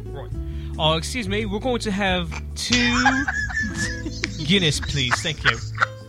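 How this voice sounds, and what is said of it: Put-on proper British accent. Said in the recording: “Are you gonna have a British accent too? ... We're going proper British, not Cockney.”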